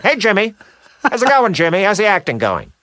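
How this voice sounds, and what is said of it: Loud New Jersey accent. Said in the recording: “a little Jersey edge to his voice. It's kind of loud. ... a pretty good imitation of my dad”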